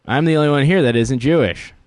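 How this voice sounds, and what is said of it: Cartoon character voice. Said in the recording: “do you sound like a Simpsons character?”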